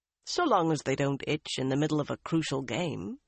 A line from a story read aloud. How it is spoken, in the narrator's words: Bryn told him dryly